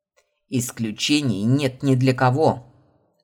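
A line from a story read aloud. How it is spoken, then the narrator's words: Barking, emotions hidden. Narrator (Russian): рявкнул, не показывая своих истинных эмоций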